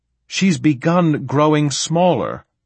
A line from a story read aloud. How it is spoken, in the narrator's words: Saul shouted